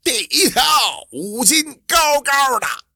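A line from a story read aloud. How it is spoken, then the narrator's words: Loud shout. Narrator (Chinese): 卖鱼的张二驴子大声的喊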